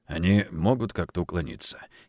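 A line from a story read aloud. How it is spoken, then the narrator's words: Quiet question. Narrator (Russian): негромко спросил генерал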